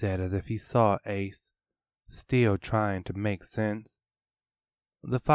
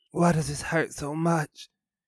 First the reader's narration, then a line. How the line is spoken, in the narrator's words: panted